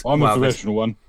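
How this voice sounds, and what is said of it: Lowered voice, imitates another person's voice. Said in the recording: “why did you lower your voice when you said that? ... I was doing an impression”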